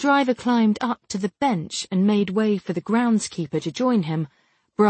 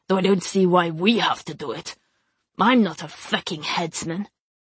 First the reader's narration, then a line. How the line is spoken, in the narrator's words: one of the men said gruffly